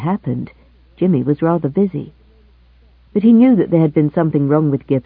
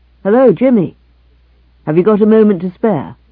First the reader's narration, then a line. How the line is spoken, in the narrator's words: Gibson called out